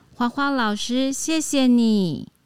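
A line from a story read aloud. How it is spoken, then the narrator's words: Loud, grateful child. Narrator (Chinese): 大声对老师说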